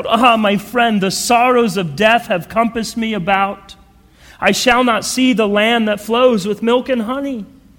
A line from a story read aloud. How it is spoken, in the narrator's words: Christian cried out